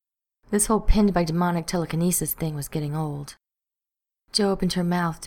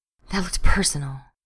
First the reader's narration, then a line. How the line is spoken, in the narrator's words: she said breathlessly